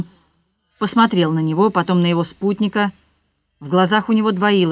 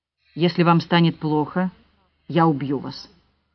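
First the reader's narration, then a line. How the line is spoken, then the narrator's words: Calm man's voice. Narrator (Russian): спокойно сказал мужчина с пистолетом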